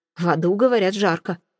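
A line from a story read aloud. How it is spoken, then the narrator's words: Wry grunt. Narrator (Russian): хмыкнул полицейский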